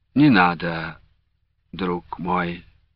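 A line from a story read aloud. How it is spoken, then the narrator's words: Gentle interruption. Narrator (Russian): мягко прервал Александр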